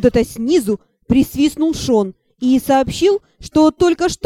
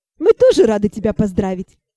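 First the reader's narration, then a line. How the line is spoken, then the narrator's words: Laughing. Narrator (Russian): Засмеялась я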